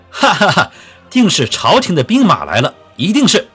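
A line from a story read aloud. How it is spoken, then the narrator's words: Sudden hearty laughter. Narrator (Chinese): 许知远突然双手一拍，哈哈大笑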